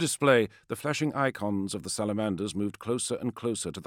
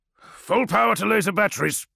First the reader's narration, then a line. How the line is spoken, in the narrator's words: Kratos snapped